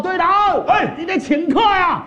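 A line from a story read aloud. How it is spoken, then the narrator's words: Shout from crowd. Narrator (Chinese): 有人喊道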